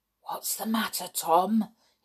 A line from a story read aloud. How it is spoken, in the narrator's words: He whispered